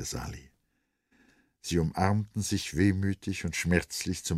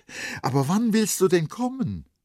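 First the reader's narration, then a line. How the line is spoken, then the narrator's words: Called out. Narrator (German): rief Vrenchen noch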